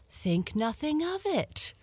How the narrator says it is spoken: the dragon replied cheerfully

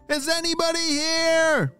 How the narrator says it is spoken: shouted Charlie

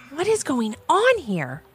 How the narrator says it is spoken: shouted Levi in a whisper as to not alert anyone in the house

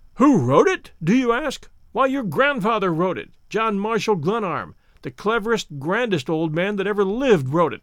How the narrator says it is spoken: declaimed Larry, his voice booming loudly in the room

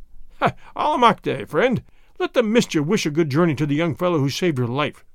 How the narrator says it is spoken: Pietro Retief said with one of his hearty laughs

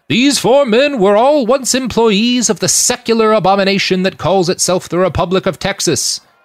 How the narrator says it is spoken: he said in his booming stentorian voice

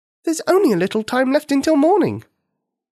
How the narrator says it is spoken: Nikini said impatiently

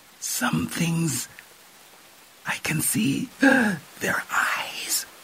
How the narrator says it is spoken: she gasped

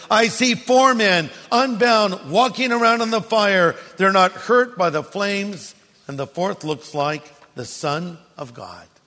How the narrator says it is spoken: Nebuchadnezzar shouted

